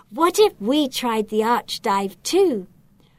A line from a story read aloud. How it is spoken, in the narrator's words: suggests excitedly